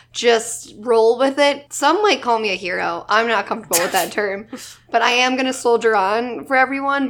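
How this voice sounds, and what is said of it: Sick, hoarse voice. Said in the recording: “I'm a little sick... My voice is kind of going in and out if I cough really disgustingly or if I sound a little hoarse... I might sound like hot garbage”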